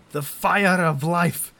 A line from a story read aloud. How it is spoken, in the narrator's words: I bellow